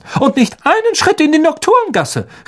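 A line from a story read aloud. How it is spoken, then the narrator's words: Calling after someone. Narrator (German): rief sie den Zwillingen noch nach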